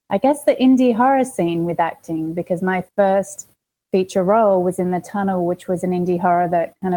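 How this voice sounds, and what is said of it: Australian accent. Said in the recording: “if you can't tell, I've got an accent. Did I say I'm from Australia? I'm from Australia.”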